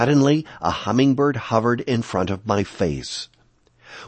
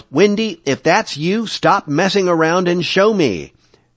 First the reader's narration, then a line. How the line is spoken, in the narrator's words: yelled